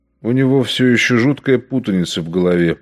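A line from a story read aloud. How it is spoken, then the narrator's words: Apologetic mutter. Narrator (Russian): пробормотал он, словно вынужденный извиниться за Зульцбахера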